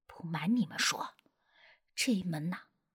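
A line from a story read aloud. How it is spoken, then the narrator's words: Secretive, low voice. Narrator (Chinese): 司机神神秘秘的低声补充了一句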